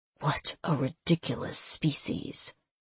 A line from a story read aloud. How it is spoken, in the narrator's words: he muttered